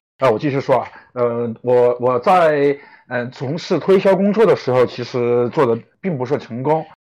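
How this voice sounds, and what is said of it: Chongqing-accented Mandarin. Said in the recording (Chinese): “我的普通话不太标准啊...我是一个重庆人...我的口音还是改不了。啊，反正乡音未改吧”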